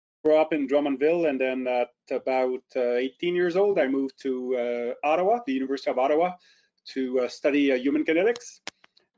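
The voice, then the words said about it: Slight French-Canadian accent. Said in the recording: “I have a little bit of a French accent.”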